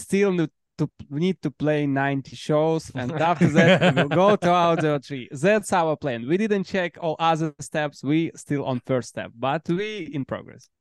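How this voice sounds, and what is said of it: Speaks English with an accent. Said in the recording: “With the accent,”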